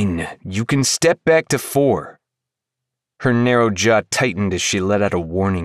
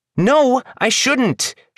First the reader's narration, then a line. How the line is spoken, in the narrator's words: she shouted back